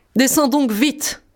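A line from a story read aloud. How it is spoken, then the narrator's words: Shouting. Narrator (French): criait la Barbe Bleue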